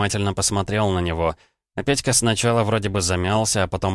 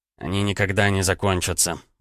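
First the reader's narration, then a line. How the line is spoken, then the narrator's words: Grumbled. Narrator (Russian): буркнул Петька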